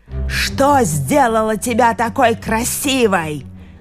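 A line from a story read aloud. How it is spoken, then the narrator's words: Wild, furious growl. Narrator (Russian): зарычала она диким от злобы голосом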